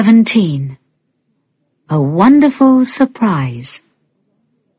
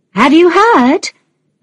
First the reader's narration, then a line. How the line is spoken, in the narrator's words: another mother called out to her